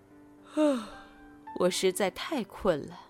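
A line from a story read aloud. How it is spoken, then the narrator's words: Weary deep sigh. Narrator (Chinese): 白后 她深深叹了一口气，道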